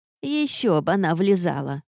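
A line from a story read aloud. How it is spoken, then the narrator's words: Snide, mother. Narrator (Russian): подала голос матушка чаще ехидным тоном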